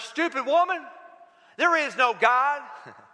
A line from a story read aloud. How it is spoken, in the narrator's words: he would shout out at her